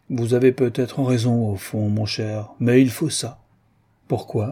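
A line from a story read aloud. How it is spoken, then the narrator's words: Heavy tone. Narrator (French): de Treuil dit d'un ton pesant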